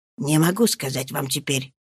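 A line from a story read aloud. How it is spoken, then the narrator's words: Whisper. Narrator (Russian): проговорил он шепотом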